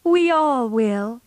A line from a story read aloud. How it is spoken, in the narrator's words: cried Meg